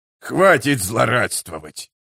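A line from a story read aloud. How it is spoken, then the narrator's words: Disgusted grumble. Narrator (Russian): проворчал Гиборик с отвращением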